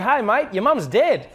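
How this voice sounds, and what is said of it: Put-on Australian accent, rising intonation. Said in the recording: “I'm Australian for the day ... the great thing about an Australian accent is that you always sound happy because always, like, it doesn't matter what it is, but it always goes up and it's like really exciting”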